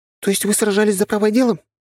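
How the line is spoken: Exclaiming. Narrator (Russian): воскликнула Кьялта

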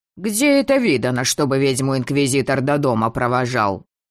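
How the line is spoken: Insistent creaky grumbling. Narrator (Russian): Настойчивое скрипучее ворчание

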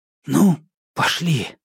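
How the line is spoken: Exhaled. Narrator (Russian): выдохнул Андрей

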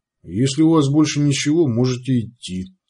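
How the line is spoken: Plain. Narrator (Russian): сказал Сварог

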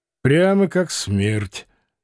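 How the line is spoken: Grim joke. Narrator (Russian): мрачно пошутил Лазарь

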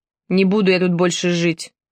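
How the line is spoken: Gloomy. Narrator (Russian): мрачно сказал Влад

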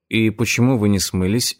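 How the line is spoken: Plain. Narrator (Russian): спросил я

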